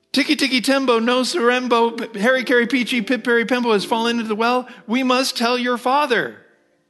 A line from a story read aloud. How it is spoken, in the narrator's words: Alarmed, mother cried